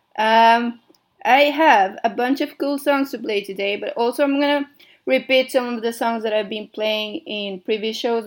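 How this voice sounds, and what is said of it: Mexican-accented English with American mix. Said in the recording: “I don't know what my accent is... it's Mexican. I'm Mexican, and I live in London... a mashup of stuff... it had like American English, so it's a bit, you know, mixed. Spanish”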